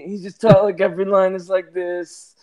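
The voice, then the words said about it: Imitates another person's voice. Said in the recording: “Marlon Brando in The Godfather... he's talking like this for like the whole movie... that voice... You sound silly.”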